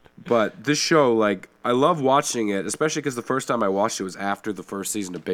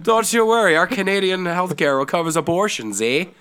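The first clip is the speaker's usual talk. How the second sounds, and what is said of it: Put-on Irish accent with Canadian 'eh'. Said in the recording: “I'm just going to lean into the Irish accent at this point ... There, I got the Canadian accent with the A there ... the Canadian accent is just an Irish accent”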